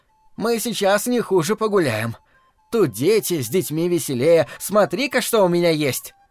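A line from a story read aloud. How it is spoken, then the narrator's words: Loud. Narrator (Russian): матушка громко сказала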